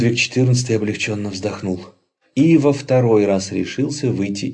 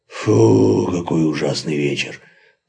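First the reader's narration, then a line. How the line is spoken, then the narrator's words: Groaning. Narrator (Russian): простонал Максимилиан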